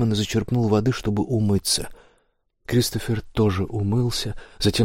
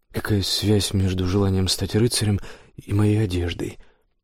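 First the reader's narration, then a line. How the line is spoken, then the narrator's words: Thoughtful question. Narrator (Russian): подумав, спросил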